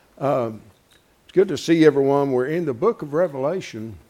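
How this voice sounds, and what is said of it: Strained, poor-sounding voice. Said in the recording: “my voice is not too good this morning ... I need a voice is what I need.”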